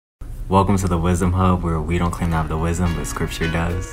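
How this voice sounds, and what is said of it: Deep, low put-on voice. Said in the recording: “Sounds a little creepy. ... Put on my deep voice. ... That pillow talk voice.”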